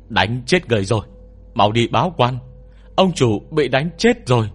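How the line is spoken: Loud shout. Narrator (Vietnamese): con tiểu nhị ở phía trước hét lớn

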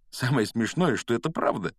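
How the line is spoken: Giggling. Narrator (Russian): хихикнул Гарри

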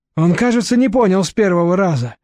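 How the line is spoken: Sighing. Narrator (Russian): вздохнул прилизанный

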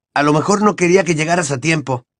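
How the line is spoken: Exclaimed. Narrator (Spanish): exclamó Ron

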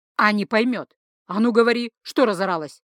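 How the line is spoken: Barked. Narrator (Russian): рявкнул Тацу

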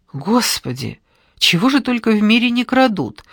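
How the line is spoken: Exclaiming. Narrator (Russian): воскликнула Евгения

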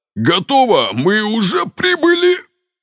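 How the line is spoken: Wail. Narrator (Russian): взвыл стражник

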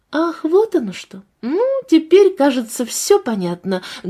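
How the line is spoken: Loud voice. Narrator (Russian): громко произнесла Надежда Петровна

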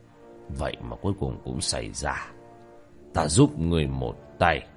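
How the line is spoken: Shaken muttering. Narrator (Vietnamese): lão biến sắc, lẩm bẩm

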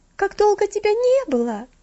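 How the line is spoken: Exclaiming. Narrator (Russian): воскликнула Стефели, прервав свое пение

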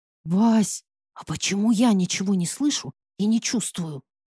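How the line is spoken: Switching to whisper. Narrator (Russian): Зайцева тоже перешла на шепот

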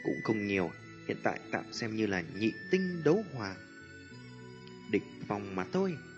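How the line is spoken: Light laugh. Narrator (Vietnamese): Tiêu Viêm cười nhẹ

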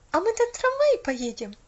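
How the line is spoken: Joyful question. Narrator (Russian): радостно спросила Поллианна

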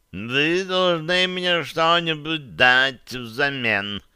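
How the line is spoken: Creaky cat voice. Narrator (Russian): проскрипел кот да Винчи

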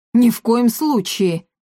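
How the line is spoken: Heated exclamation. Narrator (Russian): горячо воскликнул мэр

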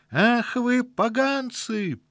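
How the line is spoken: Shriek. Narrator (Russian): взвизгнула атлетического сложения коротышка

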